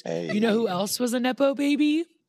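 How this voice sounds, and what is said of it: Youth pastor voice. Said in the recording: “in a youth pastor voice”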